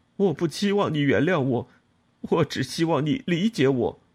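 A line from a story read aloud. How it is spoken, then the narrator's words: Crying. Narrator (Chinese): 他一边哭一边说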